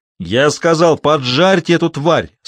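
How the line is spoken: Booming voice. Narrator (Russian): снова прогремел голос Стеббинса

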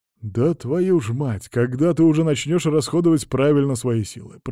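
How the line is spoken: Through gritted teeth. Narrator (Russian): процедил Петр

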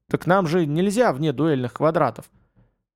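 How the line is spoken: Grumbled. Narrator (Russian): Вема буркнул

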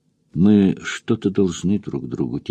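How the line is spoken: Quiet. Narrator (Russian): тихо сказала

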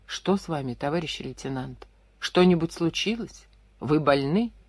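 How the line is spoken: Hesitant, quiet, bewildered. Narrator (Russian): После минуты растерянного молчания она нерешительно и тихо спросила

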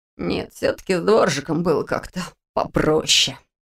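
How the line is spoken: Muttered. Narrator (Russian): пробормотал он

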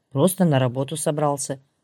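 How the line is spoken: Calm. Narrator (Russian): спокойно ответил он

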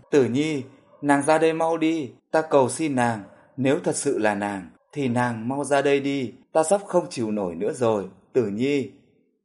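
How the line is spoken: Desperate scream. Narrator (Vietnamese): Trong đám đông, Sở Hiên gào lên

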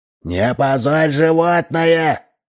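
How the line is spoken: Distant shouting. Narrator (Russian): кричал из скорой помощи краевед

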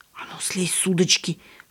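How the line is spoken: Hissing. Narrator (Russian): шипел Павлик

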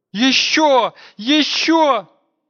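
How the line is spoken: Shouting. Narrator (Russian): кричала Надежда

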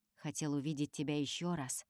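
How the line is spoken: Quiet. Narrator (Russian): тихо говорит Олесио

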